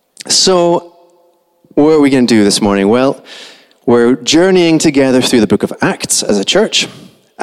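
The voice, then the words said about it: Soft Scottish accent. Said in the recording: “I'm Scottish. Okay, that's what my accent is. It's very soft.”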